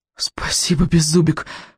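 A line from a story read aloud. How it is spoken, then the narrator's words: Breathless. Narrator (Russian): выдохнул Икинг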